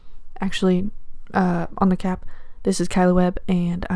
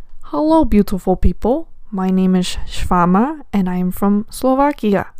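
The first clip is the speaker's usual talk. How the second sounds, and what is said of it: Put-on Slovak accent. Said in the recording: “I am only a quarter Slovakian. But I'm working on my accent”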